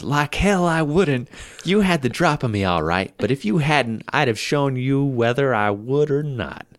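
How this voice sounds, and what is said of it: Clumsy put-on southern accent. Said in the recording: “That was a southern accent instead of a British accent ... I'm terrible at accents.”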